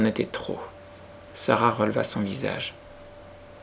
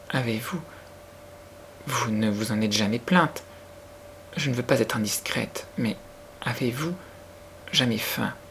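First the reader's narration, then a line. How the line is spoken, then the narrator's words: Timid, trembling voice. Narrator (French): dit-elle d'une voix timide et presque tremblante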